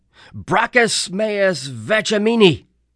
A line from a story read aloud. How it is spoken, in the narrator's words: I yelled